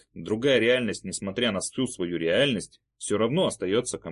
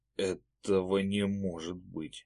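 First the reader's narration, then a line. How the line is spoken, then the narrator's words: Quiet whisper, camel. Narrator (Russian): тихо прошептал верблюд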